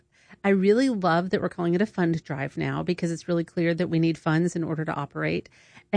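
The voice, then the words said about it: Southern American accent. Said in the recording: “it's probably my Southern accent”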